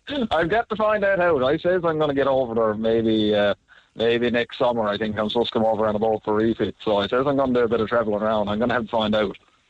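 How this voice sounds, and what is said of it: Irish-like accent with New York tinge. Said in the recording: “the ingredients of the accent. There's a little bit of Cork there, a little bit of Irish there, a little bit of New York there as well.”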